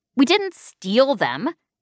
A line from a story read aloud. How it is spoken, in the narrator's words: FM snapped